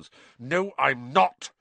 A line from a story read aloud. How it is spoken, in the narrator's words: said Harry angrily